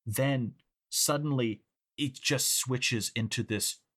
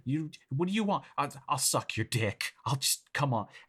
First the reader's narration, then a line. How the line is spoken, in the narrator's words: pleading at first and says